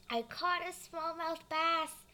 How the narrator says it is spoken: I shouted

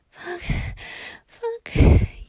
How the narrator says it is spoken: whimper

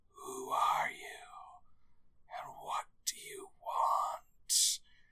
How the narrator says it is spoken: in a hoarse, creepy whisper

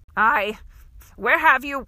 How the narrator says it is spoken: spluttered

